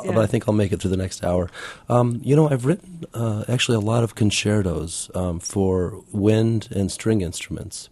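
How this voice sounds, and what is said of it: Sick, congested voice. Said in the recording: “I apologize for my voice is cold-ridden.”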